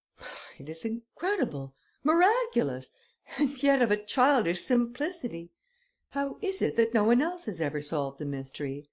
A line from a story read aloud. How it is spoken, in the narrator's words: He exclaimed